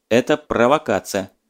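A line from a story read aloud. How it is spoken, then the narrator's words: Dry, firm reply, official. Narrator (Russian): сухо и твердо ответил комиссар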